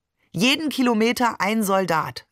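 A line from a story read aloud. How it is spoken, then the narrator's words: Plain. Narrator (German): sagte Barbe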